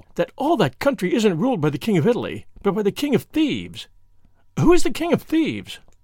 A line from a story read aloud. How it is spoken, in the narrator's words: she cried, with the awful relish of a schoolgirl